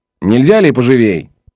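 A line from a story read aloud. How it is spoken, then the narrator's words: Rough shout. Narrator (Russian): грубо крикнул Том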